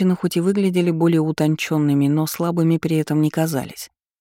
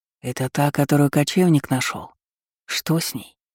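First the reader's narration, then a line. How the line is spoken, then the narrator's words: Whisper. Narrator (Russian): слышала я шепот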